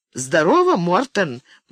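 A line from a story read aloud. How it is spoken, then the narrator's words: Mocking. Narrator (Russian): насмешливо проговорила Руби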